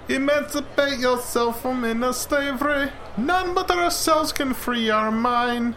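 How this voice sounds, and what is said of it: Put-on Jamaican accent. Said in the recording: “I'm not sure that that's a Jamaican accent, but ... close. ... It's a Jamaican accent.”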